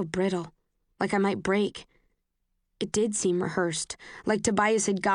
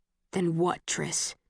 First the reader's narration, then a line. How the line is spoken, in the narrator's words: His voice is rough